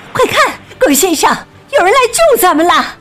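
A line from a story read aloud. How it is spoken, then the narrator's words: Woman shouting. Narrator (Chinese): 格林太太喊起来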